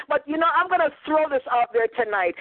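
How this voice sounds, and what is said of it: Jamaican Canadian accent. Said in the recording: “I'm Jamaican slash Canadian, so I sound very different”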